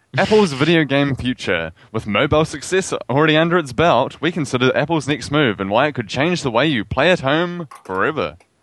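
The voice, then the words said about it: New Zealand accent. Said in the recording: “my wonderful New Zealand accent”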